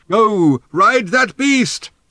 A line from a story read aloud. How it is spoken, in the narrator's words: shouted Thrashbarg